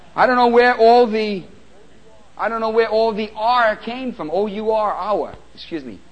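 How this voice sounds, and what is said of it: New York accent. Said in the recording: “That's my New York accent.”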